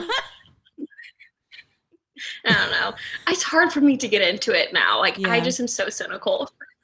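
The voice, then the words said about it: Country-sounding regional American accent. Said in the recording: “I swear I'm not a country bumpkin. I know it might sound like it... You just have a fun accent”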